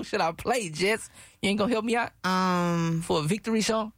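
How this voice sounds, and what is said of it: Usual voice. Nothing is said of it.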